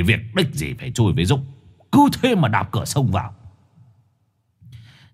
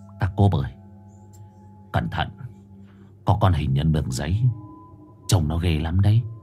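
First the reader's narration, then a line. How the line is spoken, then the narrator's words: Muttering. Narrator (Vietnamese): lẩm bẩm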